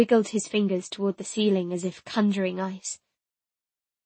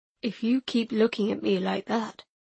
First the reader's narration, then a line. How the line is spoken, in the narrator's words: he said in a low rumble that sent shivers over my skin